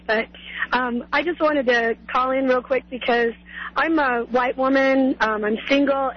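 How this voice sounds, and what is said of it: Hoarse voice. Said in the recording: “I have a little laryngitis,”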